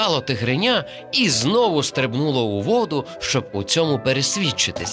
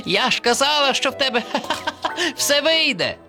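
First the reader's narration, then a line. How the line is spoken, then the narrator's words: Laughing. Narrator (Ukrainian): засміялася черепашка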